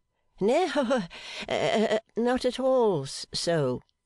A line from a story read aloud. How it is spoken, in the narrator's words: Sparkler stammered for himself with blushes